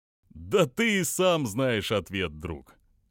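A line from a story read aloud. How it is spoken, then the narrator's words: Laughing. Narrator (Russian): Опять рассмеялся Гео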